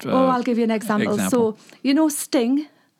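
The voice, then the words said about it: Thick British English accent. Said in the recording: “I love your British accent ... I'm talking my poshest English ... my accent is so thick”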